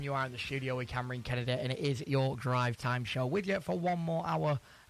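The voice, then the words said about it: Strained, worn-out voice. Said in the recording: “My voice is still not recovered from yesterday.”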